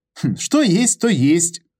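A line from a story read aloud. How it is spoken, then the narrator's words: Chuckling. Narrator (Russian): снова хохотнул Петр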